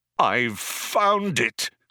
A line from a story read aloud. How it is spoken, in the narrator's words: cried Zaphod